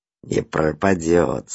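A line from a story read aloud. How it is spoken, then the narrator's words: Through clenched teeth. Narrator (Russian): сквозь зубы сказал шофер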